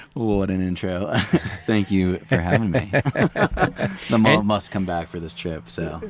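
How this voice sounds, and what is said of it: Smooth radio-announcer voice. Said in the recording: “he's got a radio voice”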